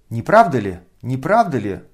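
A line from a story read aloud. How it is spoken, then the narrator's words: Sharp cry. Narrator (Russian): вскрикнула генеральша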